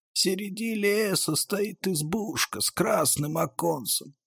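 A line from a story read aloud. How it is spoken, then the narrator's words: Faint dying voice. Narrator (Russian): чуть слышно говорил умирающий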